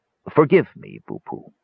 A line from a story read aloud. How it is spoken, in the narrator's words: he said gravely